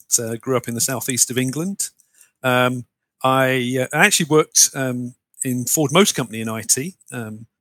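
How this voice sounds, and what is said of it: British English accent. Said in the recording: “based on your accent, I know you're not originally from New Brunswick ... a Brit, as you can probably guess from the accent”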